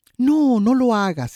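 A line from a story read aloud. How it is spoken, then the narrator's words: Exclaiming with scratchy throat. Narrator (Spanish): exclamó Gorán, con un picor en la garganta cada vez más fastidioso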